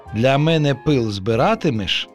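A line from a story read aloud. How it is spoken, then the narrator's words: Plain. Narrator (Ukrainian): запитав пиловичок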